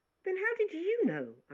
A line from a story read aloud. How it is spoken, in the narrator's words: I cried out